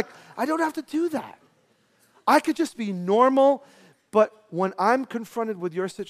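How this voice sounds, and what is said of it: Usual voice. Nothing is said of it.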